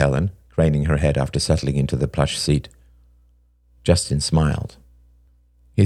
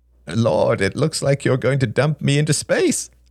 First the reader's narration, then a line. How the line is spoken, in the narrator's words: laughed Helen